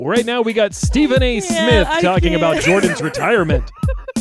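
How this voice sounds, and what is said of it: Sports commentator voice. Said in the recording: “you want to do that sports commentator voice ... That's a good sports commentator voice.”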